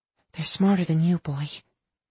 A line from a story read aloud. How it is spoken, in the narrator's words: Lana whispered to her dog